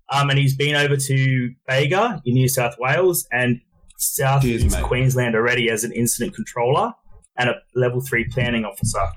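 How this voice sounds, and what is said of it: Thick Australian accent. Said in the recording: “He's got a pretty fucking thick accent. ... That's a thick one. ... I have a really thick Australian accent”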